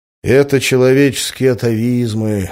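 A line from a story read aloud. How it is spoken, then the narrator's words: Sighing. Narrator (Russian): вздохнул я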